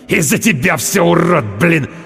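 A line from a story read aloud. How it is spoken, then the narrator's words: Angry hiss. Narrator (Russian): Прошипел он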